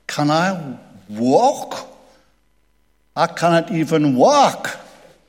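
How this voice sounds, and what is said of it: Put-on Geordie accent. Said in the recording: “only Geordies will understand the accent there in terms of the closeness to the word work and the closeness to the word walk”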